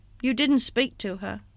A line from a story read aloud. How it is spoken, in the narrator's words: Broughton said in a colourless voice, half question, half reproach